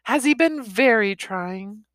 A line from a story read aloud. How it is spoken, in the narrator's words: My wife said in a sympathetic voice